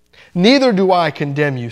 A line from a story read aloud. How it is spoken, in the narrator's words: said Jesus